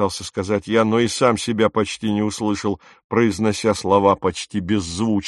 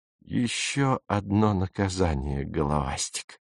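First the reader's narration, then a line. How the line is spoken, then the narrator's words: Quiet. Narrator (Russian): негромко сказал он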